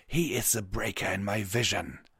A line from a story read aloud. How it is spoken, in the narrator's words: Regiscra snarled back